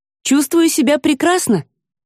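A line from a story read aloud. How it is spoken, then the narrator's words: Cheerful. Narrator (Russian): бодро докладывает она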